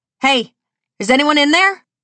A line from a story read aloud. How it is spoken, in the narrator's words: Victoria shouts